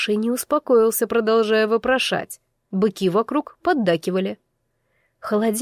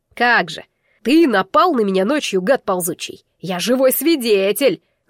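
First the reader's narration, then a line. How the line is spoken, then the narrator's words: Yelling. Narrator (Russian): заорал уже Байнар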